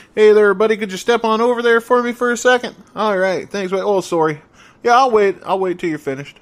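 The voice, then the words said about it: Put-on Canadian accent. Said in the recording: “my Canadian and my Minnesota accents are so similar”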